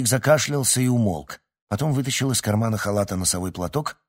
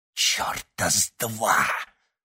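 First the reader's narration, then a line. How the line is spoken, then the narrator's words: Hoarse rasp. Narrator (Russian): прохрипел Той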